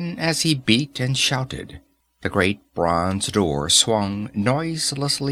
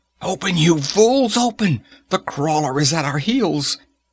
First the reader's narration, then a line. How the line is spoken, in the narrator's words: Tecuhltli went ashy again ... screaming